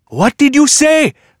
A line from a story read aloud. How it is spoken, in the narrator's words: Magdi yelled